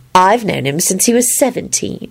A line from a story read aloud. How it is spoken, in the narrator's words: Elizabeth replied sweetly